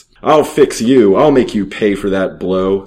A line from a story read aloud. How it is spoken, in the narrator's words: snarled